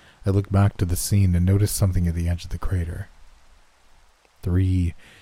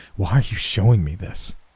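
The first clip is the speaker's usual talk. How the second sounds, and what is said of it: Shaky, trembling voice. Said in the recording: “I asked in a shaky voice.”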